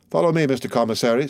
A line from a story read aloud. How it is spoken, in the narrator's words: said the brigadier